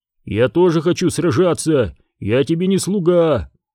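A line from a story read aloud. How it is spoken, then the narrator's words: Barked shout. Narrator (Russian): гаркнул Тасиро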